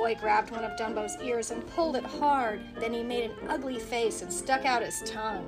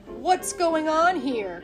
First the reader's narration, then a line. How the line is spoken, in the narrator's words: cried, rushing forward